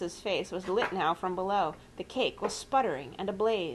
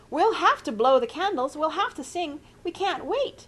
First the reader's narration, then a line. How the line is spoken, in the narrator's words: shrieked Mrs